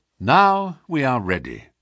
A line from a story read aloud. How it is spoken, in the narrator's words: said he